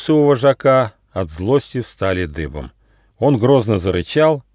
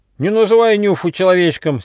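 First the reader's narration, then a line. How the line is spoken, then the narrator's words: Angry shout. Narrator (Russian): сердито крикнул Рыж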